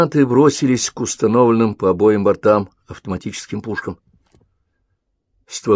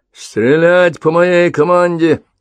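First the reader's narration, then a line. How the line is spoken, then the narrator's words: Shout. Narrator (Russian): прокричал Дельта-1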